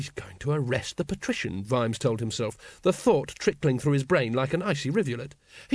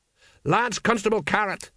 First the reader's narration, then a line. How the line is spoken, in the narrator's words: he shouted